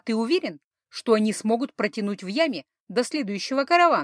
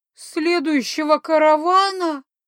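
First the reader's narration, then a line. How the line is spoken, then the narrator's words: Sobbing werewolf. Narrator (Russian): всхлипнул очнувшийся было оборотень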